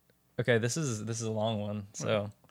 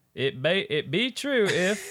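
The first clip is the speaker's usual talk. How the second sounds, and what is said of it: Put-on southern accent. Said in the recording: “saying it with a southern accent”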